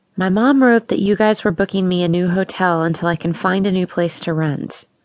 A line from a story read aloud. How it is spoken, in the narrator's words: said in a calm voice